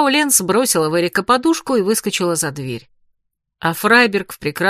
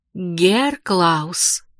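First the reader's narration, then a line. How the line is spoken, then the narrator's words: Stern. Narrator (Russian): строго произнесла Магда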